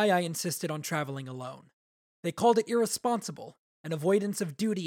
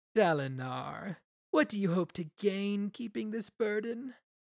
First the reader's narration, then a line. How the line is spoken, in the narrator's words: Dalinar sneered at the god